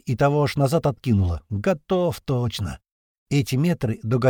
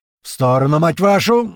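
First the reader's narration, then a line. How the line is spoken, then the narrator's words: Shouting. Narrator (Russian): закричал Слива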